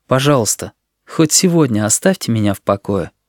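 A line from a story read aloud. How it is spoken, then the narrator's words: Quiet tired plea. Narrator (Russian): Тихо и устало Сережа попросил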